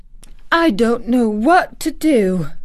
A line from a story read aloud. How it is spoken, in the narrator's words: cried agitated Martha